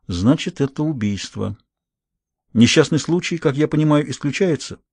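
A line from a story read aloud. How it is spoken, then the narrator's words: Thoughtful. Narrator (Russian): Она задумчиво проговорила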